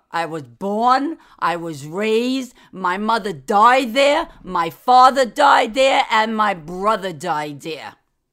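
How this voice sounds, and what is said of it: New York accent. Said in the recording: “I'm a New Yorker ... Downtown Manhattan. You like the accent?”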